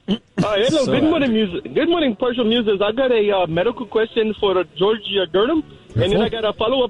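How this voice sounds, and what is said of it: Questionable put-on regional accent. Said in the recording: “this is a Roanoke accent ... very questionable accent ... Why are we letting this guy get away with this accent?”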